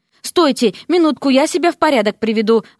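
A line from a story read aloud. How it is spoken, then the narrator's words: Exclaimed. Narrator (Russian): воскликнул Дерек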